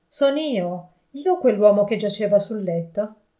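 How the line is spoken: Shouting, falling to knees. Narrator (Italian): gridò cadendo in ginocchio

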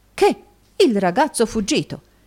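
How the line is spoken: Astonished exclamation. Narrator (Italian): esclamò Snowley

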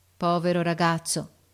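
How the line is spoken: Sad. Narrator (Italian): ripeté tristemente l'ufficiale

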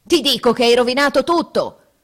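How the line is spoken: Furious roar. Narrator (Italian): ruggite, desiderando d'aver l'amico nelle mani

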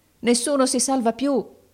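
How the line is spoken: Crowd shouting. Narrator (Italian): gridavano

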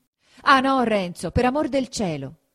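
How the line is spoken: Shouted. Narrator (Italian): gridò Lucia

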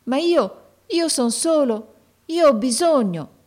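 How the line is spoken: Pleading boy. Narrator (Italian): esclamò il ragazzo con voce di preghiera

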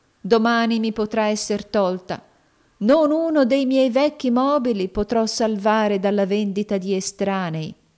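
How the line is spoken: Sighing poor man. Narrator (Italian): sospirò il poveretto

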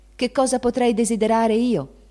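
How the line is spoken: Exclaimed. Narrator (Italian): gridò Meg

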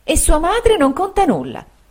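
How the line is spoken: Exclaimed. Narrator (Italian): esclamò la signora Markham

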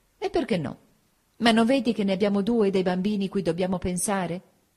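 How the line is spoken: Exclaimed. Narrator (Italian): nel mio nuovo altruismo esclamai

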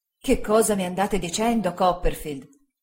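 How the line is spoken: Exclaiming. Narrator (Italian): esclamò il signor Spenlow

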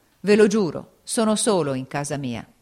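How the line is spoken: Exclaiming. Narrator (Italian): esclamò

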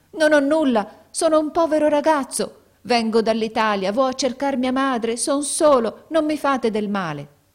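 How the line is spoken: Panicked shout. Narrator (Italian): egli smarrì la ragione e … gridò

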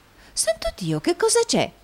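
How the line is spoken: Feigned astonished exclamation. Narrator (Italian): esclamò la signorina Price fingendo la più alta meraviglia

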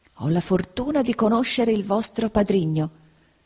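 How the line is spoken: Whisper. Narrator (Italian): bisbigliò il signor Creakle

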